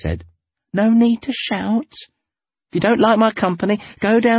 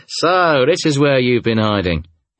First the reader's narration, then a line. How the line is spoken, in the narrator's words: he chuckled